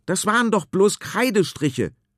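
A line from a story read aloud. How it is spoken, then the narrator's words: Shout. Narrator (German): schreit er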